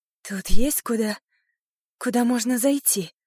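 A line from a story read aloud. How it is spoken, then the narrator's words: Breathless. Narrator (Russian): выдохнула я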